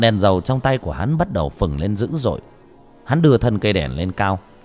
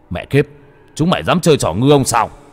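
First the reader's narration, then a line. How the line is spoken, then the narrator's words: Shouting. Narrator (Vietnamese): Đồ Lương hét lên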